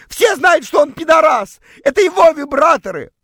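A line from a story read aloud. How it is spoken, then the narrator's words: Shouted. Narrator (Russian): прокричала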